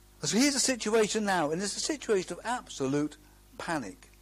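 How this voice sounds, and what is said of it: Usual voice. Nothing is said of it.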